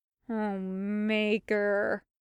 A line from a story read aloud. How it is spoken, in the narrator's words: Hawk groaned